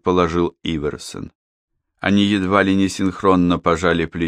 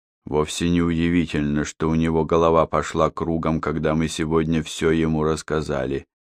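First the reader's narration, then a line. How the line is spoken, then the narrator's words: Plain. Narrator (Russian): сказал Иверсон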